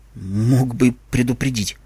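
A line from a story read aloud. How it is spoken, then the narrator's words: Grumbling unicorn girl. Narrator (Russian): буркнула единорожка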